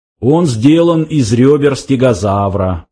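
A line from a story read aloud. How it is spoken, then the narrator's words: Explaining. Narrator (Russian): пояснил Сларти Бартфаст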